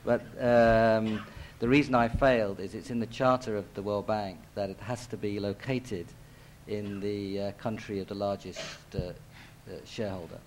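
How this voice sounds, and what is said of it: London English accent. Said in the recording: “as you can tell by my accent, this is a city which I have some association”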